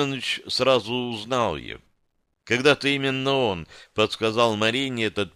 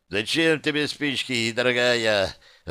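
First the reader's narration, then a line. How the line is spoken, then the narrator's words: Joyful squealing man. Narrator (Russian): радостно заверещал тот самый мужчина, маленький, пузатый и носатый кавказец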